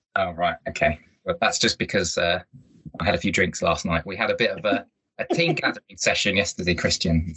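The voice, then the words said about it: Hoarse voice, deeper than normal. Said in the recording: “Just a bit deeper than normal ... my voice has gone a little bit hoarse.”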